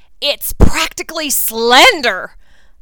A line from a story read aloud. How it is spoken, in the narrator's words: I said hotly